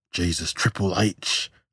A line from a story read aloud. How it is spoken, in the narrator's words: gasped Hal